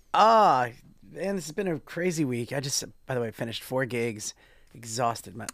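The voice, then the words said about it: Slightly raspy voice. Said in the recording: “my voice is a little bit raspy.”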